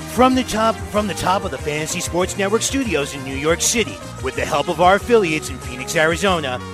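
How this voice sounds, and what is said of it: Casey Kasem radio-host impression. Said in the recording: “Casey Kasem impression ... that amazing impression ... that amazing Casey Kasem impression”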